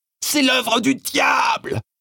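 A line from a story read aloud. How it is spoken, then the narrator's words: Screamed. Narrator (French): hurla-t-elle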